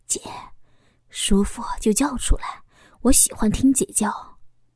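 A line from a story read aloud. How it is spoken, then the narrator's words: Soft whisper in ear. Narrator (Chinese): 小峰在我耳边轻声的说道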